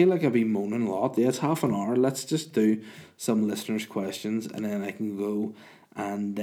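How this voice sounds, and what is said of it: Usual voice. Nothing is said of it.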